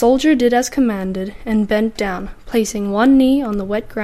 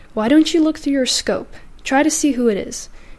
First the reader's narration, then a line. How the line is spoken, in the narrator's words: the captain said calmly